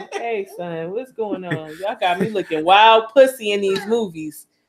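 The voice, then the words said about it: Put-on New York accent. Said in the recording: “Got a New York accent ... And a New York accent?”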